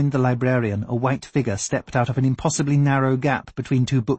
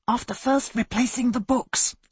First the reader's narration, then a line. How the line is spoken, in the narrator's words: Isbister reminded him in a whisper